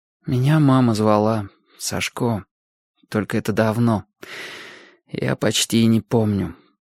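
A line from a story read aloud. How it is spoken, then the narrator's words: Bitter whisper. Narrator (Russian): горьким шепотом сказал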